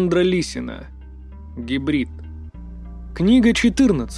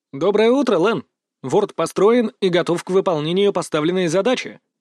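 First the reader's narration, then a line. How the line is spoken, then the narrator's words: Cheerful report. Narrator (Russian): бодро отрапортовал я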